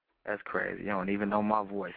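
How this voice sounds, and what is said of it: Put-on sexy, seductive voice. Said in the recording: “putting on my sexiest voice”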